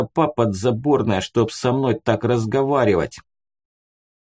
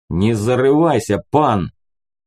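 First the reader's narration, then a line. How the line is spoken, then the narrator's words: Growled reply. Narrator (Russian): рыкнул в ответ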